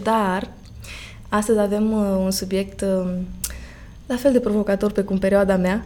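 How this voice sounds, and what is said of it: Slightly hoarse voice. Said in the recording (Romanian): “vocea mea ușor uh, răgușită”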